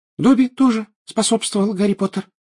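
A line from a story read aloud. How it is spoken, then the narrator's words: Indignant squeak. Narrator (Russian): пропищал он, возмущенно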